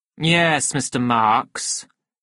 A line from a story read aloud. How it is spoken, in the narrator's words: said the director coldly